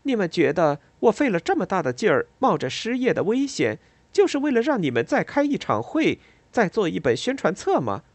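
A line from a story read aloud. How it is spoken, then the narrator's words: Joking. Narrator (Chinese): 他开玩笑地说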